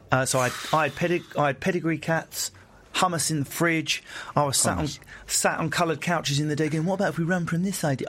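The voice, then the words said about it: English estuary accent. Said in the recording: “I still sound like a moron, thank God, because it's a funny accent... We meet in the middle, in the estuary.”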